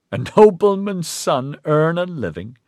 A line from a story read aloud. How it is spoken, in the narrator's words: He laughed again